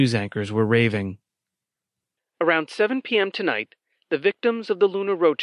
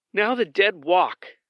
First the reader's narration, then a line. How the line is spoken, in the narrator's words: she exclaimed